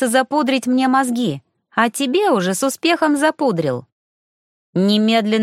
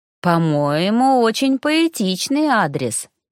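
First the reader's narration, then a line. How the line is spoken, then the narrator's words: Slightly dreamy drawl. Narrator (Russian): немного мечтательно протянул тихоход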